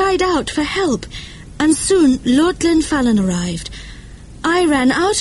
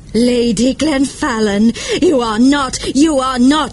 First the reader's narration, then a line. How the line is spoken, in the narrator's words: she cried